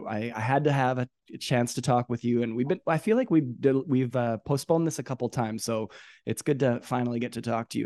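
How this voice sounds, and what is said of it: Congested voice from a cold. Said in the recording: “I've got a bit of a cold right now, and I'm sorry for that. My voice is a little silly”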